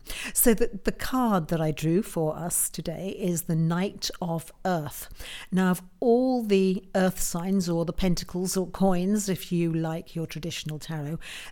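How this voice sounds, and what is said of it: Croaky, hoarse voice. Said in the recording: “my voice is a bit croaky ... as you can hear, my voice is a little croaky. I'm going for sexy, but yeah, it's croaky.”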